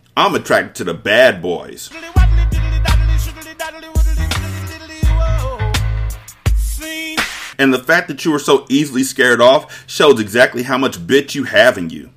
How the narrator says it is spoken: said with a laugh

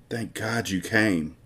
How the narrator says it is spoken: she whispers in his ear

